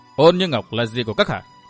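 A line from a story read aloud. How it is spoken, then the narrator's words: Cold. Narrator (Vietnamese): Trác Trường Khanh lạnh lùng nói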